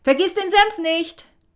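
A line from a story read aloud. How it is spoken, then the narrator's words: Called after her. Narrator (German): rief ihr nach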